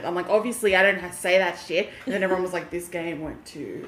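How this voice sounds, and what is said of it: Broad Australian bogan accent. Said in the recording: “can you hear my fucking accent ... I'm a fucking bogan, okay? I grew up in Penrith ... sounds like a bogan”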